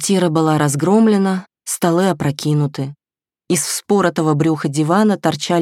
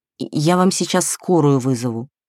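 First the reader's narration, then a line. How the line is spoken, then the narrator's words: Uncertain promise. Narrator (Russian): неуверенно пообещала она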